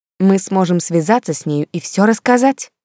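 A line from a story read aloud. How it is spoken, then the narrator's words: Exclaimed. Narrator (Russian): воскликнула Кристин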